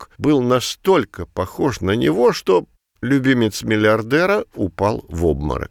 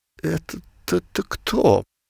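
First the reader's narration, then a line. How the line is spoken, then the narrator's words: Dejected stammering new father. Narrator (Russian): пролепетал упавшим голосом новоявленный отец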